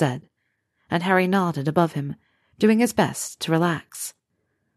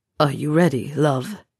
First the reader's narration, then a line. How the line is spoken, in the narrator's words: he asked, his voice hoarse with emotion